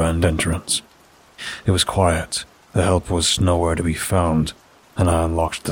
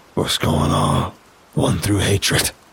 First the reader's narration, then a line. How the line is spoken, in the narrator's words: growled